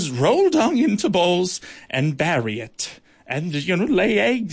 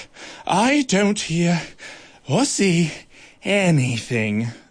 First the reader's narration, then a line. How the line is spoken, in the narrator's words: the dung beetle gasped